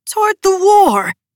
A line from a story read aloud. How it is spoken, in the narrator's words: sputtered